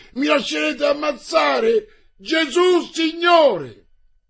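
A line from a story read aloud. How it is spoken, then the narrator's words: Echoing cry. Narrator (Italian): echeggiò quel grido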